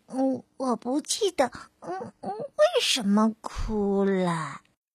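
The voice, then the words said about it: Small quiet baby owl voice. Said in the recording (Chinese): “小声叽叽说”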